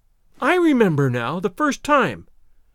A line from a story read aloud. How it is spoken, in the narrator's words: I exclaimed, more angry than I had ever been before in my life